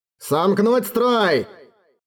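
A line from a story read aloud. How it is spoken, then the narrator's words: Shouted. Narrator (Russian): кричал Мартланд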